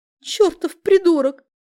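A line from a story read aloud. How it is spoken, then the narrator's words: Tearful sob. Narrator (Russian): всхлипнула Чебурашка, и ее губка задрожала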